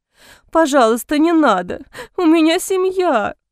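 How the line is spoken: Man sobbing. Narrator (Russian): зарыдал мужчина

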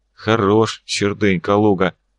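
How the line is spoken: Mutter. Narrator (Russian): пробормотал Степа

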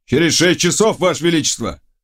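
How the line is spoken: Shouted from doorway. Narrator (Russian): Милфорд, наблюдавший за нами от двери, прокричал

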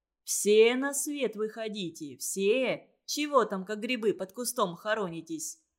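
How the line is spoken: Laughing teacher. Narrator (Russian): засмеялся учитель

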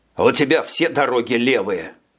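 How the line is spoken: Quarrelsome grumble. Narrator (Russian): пробурчал Фред, не желая прекращать ссору

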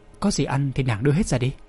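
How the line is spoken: Gentle. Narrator (Vietnamese): nhẹ nhàng nói

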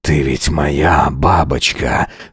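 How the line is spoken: Hoarse whisper in ear. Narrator (Russian): хрипло шепчет в ухо

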